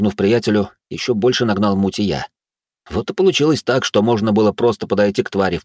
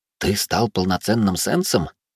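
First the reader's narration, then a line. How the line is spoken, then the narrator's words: Soundless mouthed whisper. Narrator (Russian): одними губами прошептал Алекс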